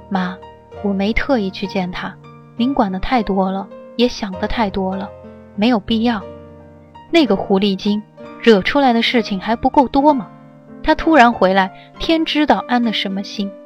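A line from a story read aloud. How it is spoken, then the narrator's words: Calm. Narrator (Chinese): 尚修文的声音却是平静的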